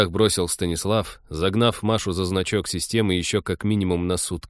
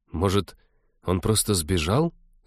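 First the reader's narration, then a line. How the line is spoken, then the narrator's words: Timid suggestion. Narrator (Russian): робко предположила Кира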